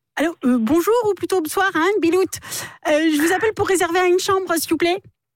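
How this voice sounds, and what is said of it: Put-on northern French accent. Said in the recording (French): “Accent du Nord”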